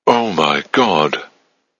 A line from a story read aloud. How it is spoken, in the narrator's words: She gasped, suddenly understanding